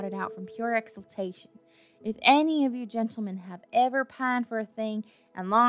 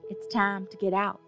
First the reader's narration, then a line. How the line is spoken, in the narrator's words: I said